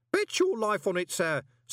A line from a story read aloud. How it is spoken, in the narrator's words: said cheerfully